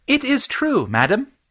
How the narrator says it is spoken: piped up Fitz, pitching his voice higher than usual

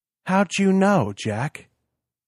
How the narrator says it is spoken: asked slowly

